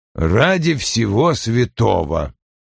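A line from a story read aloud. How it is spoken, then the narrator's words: Disbelieving mutter. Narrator (Russian): с недоверием пробормотал он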